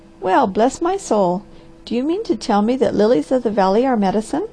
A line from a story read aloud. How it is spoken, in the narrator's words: The Harvester laughed